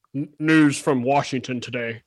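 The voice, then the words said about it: Imitates a newsreader's voice. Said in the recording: “good Walter impression”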